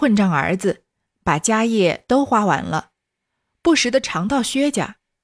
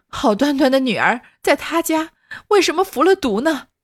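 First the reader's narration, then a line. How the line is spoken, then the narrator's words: Crying and wailing. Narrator (Chinese): 哭着喊着的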